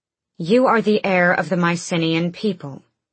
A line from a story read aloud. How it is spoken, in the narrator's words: Aelin said